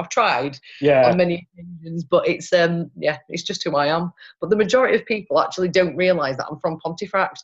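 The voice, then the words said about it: Yorkshire accent, slightly posh-leaning. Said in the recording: “There's no way in hell I can hide this Yorkshire twang. ... Apparently I sound like I'm from Manchester. ... I tried to make myself sound a little posher than I actually am.”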